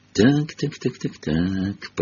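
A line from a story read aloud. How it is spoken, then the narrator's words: Whispered. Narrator (Russian): прошептал он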